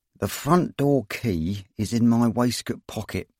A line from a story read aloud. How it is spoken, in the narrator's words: said Ron through clenched teeth